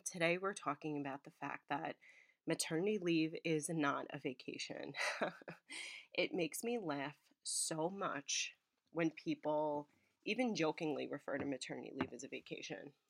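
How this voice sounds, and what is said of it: Sick, congested-sounding voice. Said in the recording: “I am sick ... I got sick from her. You can hear it in my voice”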